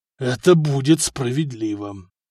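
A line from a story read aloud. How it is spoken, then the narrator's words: Reluctant, through gritted teeth. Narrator (Russian): нехотя сквозь зубы ответил Дагоберт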